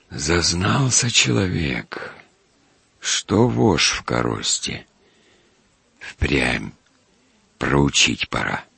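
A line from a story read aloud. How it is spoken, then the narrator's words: Thoughtful whisper. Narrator (Russian): Федосеич прошептал как бы в раздумье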